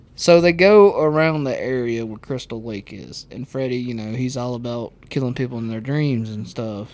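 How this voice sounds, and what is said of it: Southern American accent. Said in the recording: “You have such a southern accent.”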